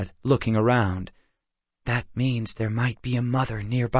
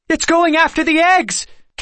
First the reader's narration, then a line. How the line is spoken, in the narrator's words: Kendra cried